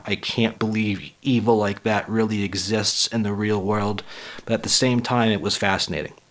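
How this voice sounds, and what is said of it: Raspy voice. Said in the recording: “I apologize for my raspy voice. Like I said, I'm just getting over the flu”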